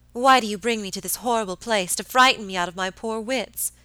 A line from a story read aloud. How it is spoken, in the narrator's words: cried my lady peevishly